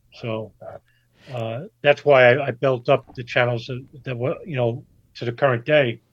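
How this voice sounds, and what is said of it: Accent like gangster movie character. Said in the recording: “I sound like a, you know, B-rate gangster movie character or something. And I don't like my accent”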